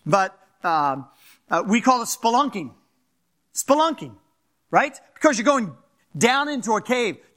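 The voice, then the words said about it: Fast-talking Philadelphia accent. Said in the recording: “I'm from Philadelphia, so if I talk a little fast or get a little, that's some of my accent.”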